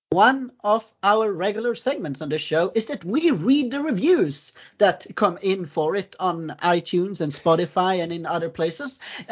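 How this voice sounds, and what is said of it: Strong accent, hard to understand. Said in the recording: “no one will understand what I'm saying. Because of my accent.”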